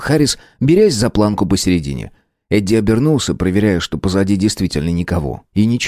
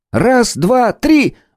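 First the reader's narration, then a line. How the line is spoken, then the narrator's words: Exclaiming. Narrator (Russian): воскликнул Харрис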